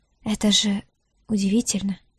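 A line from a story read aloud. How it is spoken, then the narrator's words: Whisper. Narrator (Russian): прошептала Диара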